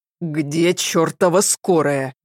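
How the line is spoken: Displeased man's growl. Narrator (Russian): недовольно рыкнул мужчина

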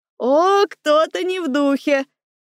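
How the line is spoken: Short laugh, younger brother. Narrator (Russian): Хохотнул с той стороны Володька, мой младший брат

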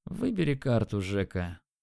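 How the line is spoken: Lazy. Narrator (Russian): лениво сказал он

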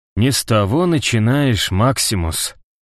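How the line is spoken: Soft. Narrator (Russian): сказал он мягко

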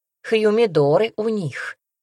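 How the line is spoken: Grumbling. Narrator (Russian): ворчала я

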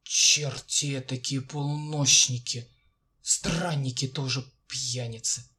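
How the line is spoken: Calmed, mumbling. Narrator (Russian): бормочет сторож, успокоенный тоном и вздохами прохожего

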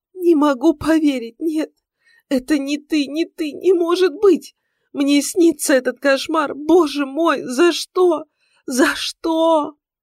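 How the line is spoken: Loud sobbing woman. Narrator (Russian): Бедная женщина громко рыдала

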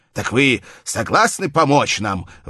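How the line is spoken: Exclaiming. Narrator (Russian): воскликнул он

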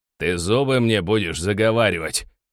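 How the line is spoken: Greedy man barking. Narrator (Russian): рявкнул жадный Гнат

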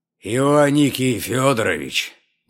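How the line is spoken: Hoarse bass voice. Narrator (Russian): говорит он хриплым баском

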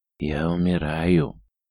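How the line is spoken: Dying wheeze. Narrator (Russian): хрипел человек

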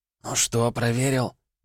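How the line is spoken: Loud whisper from afar. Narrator (Russian): донесся громкий шепот

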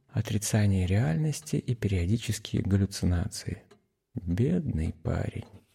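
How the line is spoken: Muttered whisper. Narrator (Russian): шепнул себе под нос

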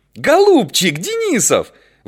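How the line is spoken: Ecstatic squeal. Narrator (Russian): взвизгнула Наташа, не помнившая себя от восторга

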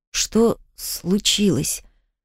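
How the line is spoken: Quiet, strained. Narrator (Russian): Тихо выдавливаю из себя с трудом

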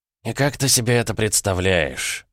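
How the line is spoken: Sighing. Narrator (Russian): вздохнул Троицкий

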